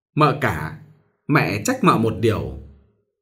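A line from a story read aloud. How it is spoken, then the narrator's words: Smiling. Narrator (Vietnamese): Bà Tuần mỉm cười nói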